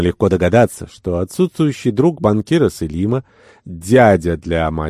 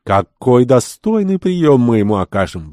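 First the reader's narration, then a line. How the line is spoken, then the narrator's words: Exclaimed. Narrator (Russian): воскликнул Неджеб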